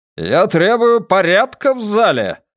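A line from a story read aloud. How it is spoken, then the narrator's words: Roar. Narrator (Russian): взревел он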